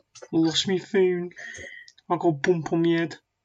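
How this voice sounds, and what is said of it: Put-on Birmingham accent. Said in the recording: “in their little Birmingham accent”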